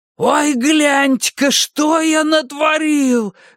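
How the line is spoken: Wail of feigned horror. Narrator (Russian): завопил Бадди Репертон с наигранным ужасом

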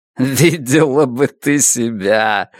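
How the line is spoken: Laughing. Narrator (Russian): рассмеялся Слейзнер

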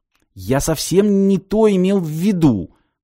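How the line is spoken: Strained, forced out. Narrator (Russian): с трудом выдавил из себя парень

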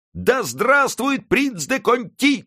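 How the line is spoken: Crowd shouting. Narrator (Russian): кричала толпа

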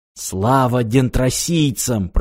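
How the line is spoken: Whisper. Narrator (Russian): прошептал он

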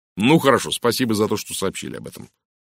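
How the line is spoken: Sharp. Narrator (Russian): резко произнес Уэстон

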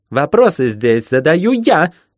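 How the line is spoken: Near-shriek through speaking tube. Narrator (Russian): Чуть не взвизгнули на том конце переговорной трубы

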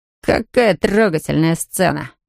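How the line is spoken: Mocking, smiling. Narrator (Russian): насмешливо улыбнулся Джейди

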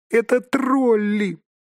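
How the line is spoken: Squeak. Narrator (Russian): пискнул Бильбо

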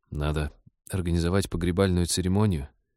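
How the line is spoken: Sad but firm. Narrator (Russian): печально, но твердо направил скорбь в деловое русло Станислав

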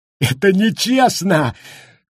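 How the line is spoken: Shouting through tears. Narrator (Russian): кричал Гаррити сквозь слезы

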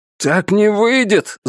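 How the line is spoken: Yelling. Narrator (Russian): завопил я

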